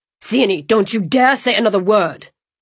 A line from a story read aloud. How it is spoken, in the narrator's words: Emery yelled